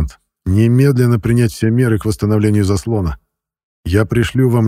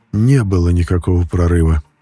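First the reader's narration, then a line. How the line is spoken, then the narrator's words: Tired answer. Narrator (Russian): устало ответил Шлиман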